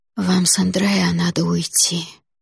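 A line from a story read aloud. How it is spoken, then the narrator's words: Sudden whisper. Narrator (Russian): прошептала вдруг мама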